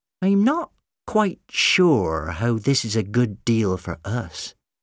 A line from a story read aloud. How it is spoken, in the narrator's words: she said slowly